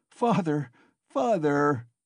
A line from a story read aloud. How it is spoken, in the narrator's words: he cried